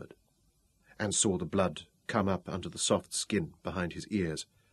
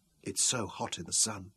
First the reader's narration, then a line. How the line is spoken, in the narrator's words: Vicky whispered